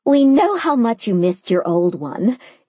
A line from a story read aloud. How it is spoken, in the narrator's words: Mimi laughed